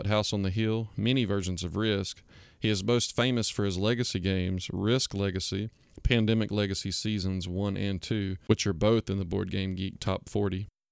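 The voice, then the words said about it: South Georgia American accent. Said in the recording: “I'm trying to place the accent. I get Georgia from it. ... We're very South Georgia.”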